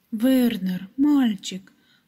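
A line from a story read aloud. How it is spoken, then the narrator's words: Exclamation. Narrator (Russian): воскликнула она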